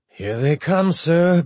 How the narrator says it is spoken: Bichet said through gritted teeth

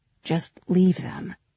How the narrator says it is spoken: he said in an undertone

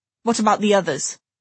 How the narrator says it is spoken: he demanded in a rough voice

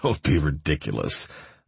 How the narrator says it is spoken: chuckled

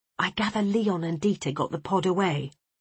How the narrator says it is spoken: I whispered to Peterson

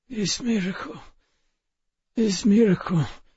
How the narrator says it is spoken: rasped, his voice thin as twice-strained tea

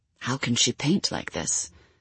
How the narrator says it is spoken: they whispered to each other

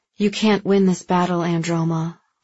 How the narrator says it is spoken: Valin said

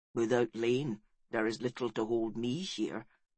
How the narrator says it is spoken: said Lennox sadly

